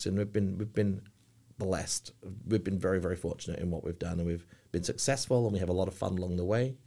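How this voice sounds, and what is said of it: English accent. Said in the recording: “I'm going to win on my accent ... Why are Americans, I guess, so fascinated with the English accent? ... 9 out of 10 people think I'm Australian”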